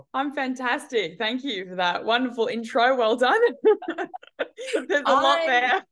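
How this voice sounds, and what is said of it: Australian accent. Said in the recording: “I love Australian accent. ... I love Australian accents.”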